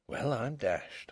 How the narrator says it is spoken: He could only keep repeating very softly to himself

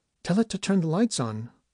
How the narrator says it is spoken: the woman said nervously

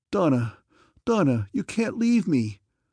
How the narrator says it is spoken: I cried into that vacant pit

